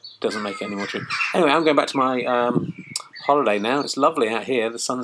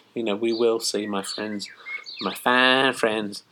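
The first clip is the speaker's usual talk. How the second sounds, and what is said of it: Put-on Southern Baptist preacher accent. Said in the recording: “saying in a Southern Baptist accent.”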